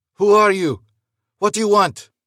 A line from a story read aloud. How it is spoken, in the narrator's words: Luis yelled into the wind